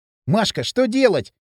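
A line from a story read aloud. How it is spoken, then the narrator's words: Shout. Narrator (Russian): закричал он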